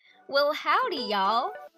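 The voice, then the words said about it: Attempted Southern US accent. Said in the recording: “I don't know if I will ever be good enough to pull off a southern accent... But I figured I'd give it a try”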